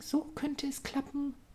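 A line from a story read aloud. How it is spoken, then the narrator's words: Muttering to herself. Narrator (German): murmelte währenddessen vor sich hin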